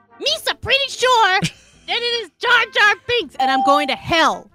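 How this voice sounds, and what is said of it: Jar Jar Binks impression. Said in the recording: “You actually lose a half point for doing that voice.”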